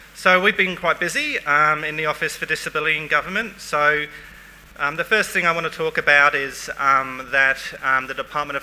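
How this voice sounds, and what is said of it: Non-regional English accent. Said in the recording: “my non-regional English accent”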